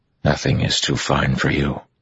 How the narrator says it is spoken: Rand whispered

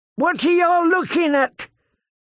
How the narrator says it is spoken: he shouted at his kin

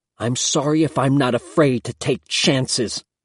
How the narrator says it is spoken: spat

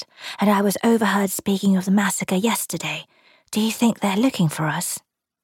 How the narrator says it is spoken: she whispered

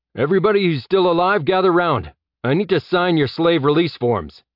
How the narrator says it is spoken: Jeb put his hands around his mouth and shouted

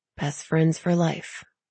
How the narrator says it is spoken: Tally muttered

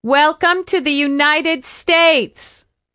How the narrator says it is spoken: Velma shouted at them as if they were deaf

